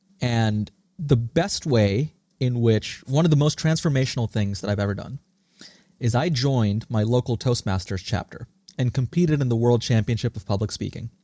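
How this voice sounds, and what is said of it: American accent. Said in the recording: “this accent, this American accent that I have, was a learned trait”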